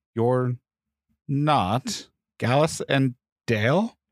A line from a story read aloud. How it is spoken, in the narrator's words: He said slowly